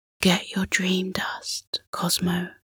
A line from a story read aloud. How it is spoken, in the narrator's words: Orion whispered